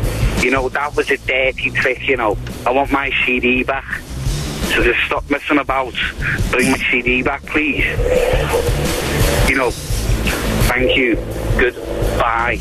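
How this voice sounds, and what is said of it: Caller putting on a fake accent. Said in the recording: “That can't be a real accent. That's somebody putting on an accent.”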